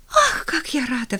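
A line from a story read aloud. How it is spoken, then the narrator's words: Exclamation. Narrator (Russian): воскликнула она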